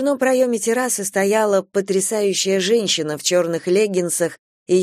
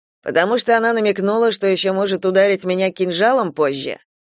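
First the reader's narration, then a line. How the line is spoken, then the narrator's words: Grumbled under breath. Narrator (Russian): проворчал под нос Киран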